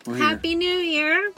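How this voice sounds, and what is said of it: Kermit the Frog impression. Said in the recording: “Is that your Kermit impression?”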